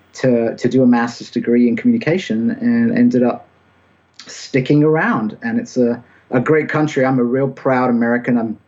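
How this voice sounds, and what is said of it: British accent. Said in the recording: “we are all very envious of your accent... I think maybe my accent isn't quite as distinctively British as it used to be”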